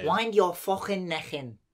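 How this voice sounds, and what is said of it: Put-on Scouse Liverpool accent. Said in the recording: “Liverpool. ... That accent is called Scouse.”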